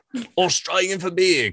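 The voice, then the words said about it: Bad put-on Australian accent. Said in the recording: “My terrible accent.”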